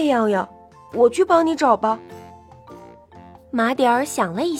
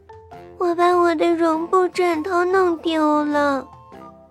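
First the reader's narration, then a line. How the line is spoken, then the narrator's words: Crying. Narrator (Chinese): 她哭着说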